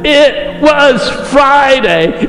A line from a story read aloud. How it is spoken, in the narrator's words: he shouted out one last time